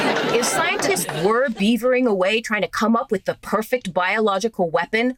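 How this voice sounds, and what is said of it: Usual voice. Nothing is said of it.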